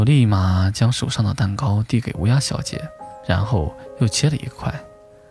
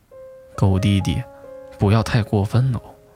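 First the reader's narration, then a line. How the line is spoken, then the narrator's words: Through gritted teeth. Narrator (Chinese): 狐狸咬牙切齿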